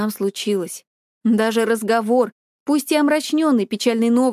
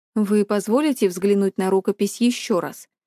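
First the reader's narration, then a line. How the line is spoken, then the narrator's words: Plain. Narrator (Russian): спросил директор Ли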